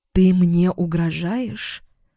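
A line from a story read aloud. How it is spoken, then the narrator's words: Incredulous whisper. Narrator (Russian): прошептала, не веря своим ушам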